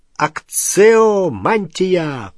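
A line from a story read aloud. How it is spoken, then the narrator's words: Roaring. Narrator (Russian): проревел пожиратель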